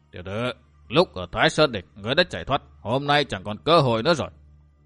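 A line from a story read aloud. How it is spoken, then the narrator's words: Stern voice. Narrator (Vietnamese): Ngoại tổng quản bằng một giọng nghiêm nghị nói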